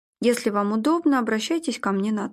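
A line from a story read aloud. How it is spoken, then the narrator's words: Casual everyday tone. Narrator (Russian): будничным голосом произнес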